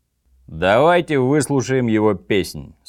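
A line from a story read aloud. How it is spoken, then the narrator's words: Plain. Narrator (Russian): сказал Орм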